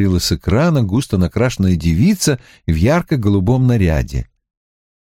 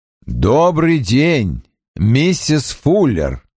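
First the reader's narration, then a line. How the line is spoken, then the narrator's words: Loud, clearly enunciated. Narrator (Russian): громко и членораздельно сказал детектив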